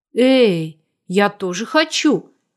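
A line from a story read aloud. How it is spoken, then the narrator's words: Exclaiming. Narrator (Russian): воскликнул Саша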